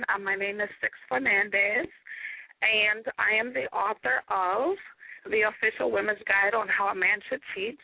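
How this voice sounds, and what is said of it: Hoarse, weak, nearly lost voice. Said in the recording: “you'll have to forgive me a little bit. My voice is definitely um gone. I've been sick”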